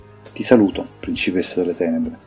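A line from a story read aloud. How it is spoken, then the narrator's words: Deferential murmur. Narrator (Italian): mormorò con deferenza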